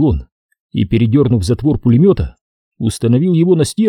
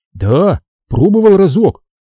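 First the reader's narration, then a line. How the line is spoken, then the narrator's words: Trembling voice. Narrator (Russian): произнес дрожащим голосом сапог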